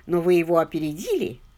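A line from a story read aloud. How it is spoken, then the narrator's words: Laughing. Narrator (Russian): засмеялся майор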